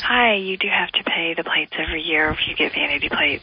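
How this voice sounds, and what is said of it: Quiet, slow, hushed voice. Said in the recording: “your voice is ridiculous ... Is this your sexy voice? ... No, this is my I'm at work, and I'm trying not to be really loud voice ... I don't talk this slow.”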